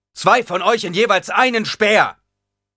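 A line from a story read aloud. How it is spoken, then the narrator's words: Thundering voice. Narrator (German): donnerte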